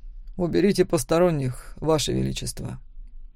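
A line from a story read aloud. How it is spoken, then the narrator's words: Quiet. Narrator (Russian): тихо сказал Макс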